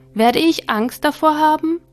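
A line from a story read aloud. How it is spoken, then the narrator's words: Small soul calling out. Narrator (German): rief die kleine Seele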